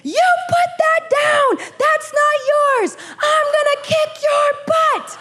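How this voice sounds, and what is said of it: Yelling. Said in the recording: “I'm yelling”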